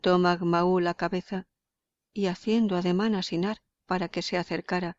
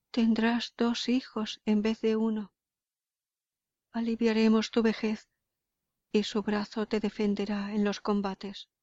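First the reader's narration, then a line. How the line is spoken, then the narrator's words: Sobbing. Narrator (Spanish): le decía sollozante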